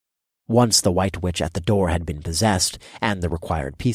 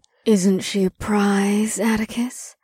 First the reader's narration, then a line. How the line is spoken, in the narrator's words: Ash purred in my ear